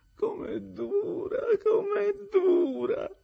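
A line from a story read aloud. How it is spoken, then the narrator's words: Moaning. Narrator (Italian): gemette la signorina Havisham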